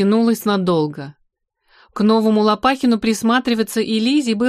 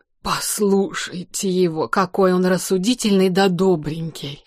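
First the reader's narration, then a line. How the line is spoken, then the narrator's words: Whispered. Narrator (Russian): зашептала Регинина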